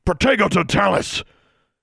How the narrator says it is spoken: Tsotsi bellowed

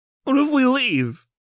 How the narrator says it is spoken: Jinx cried

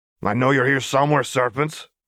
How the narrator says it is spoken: the threatening man growled from only a few feet away

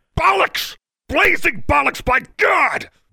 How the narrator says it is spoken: bellowed Brown

